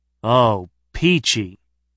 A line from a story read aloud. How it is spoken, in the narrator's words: he replied